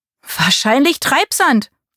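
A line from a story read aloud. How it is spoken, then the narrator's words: Calling out. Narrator (German): rief Marie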